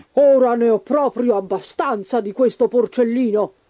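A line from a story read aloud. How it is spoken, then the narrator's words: Hungry wolf growling. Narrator (Italian): ringhiò il lupo affamato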